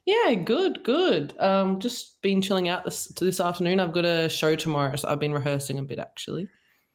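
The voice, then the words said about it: Australian accent. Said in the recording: “by the accent, you can probably tell I'm from Australia”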